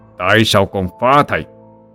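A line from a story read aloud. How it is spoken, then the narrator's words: Harsh, stressed voice. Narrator (Vietnamese): Vạn Lĩnh gằn giọng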